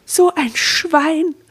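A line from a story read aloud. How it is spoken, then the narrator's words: Exclamation. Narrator (German): rief sie aus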